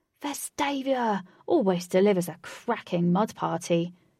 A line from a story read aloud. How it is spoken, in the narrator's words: cried Lynx in delight